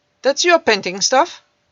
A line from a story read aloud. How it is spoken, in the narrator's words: asked curtly